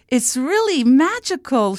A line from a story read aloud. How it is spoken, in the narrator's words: she exclaimed